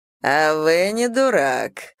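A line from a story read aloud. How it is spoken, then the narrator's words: Amused snort. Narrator (Russian): хмыкнул он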